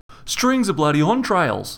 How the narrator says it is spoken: Rog blurted out

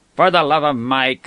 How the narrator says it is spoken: said her brother irritably

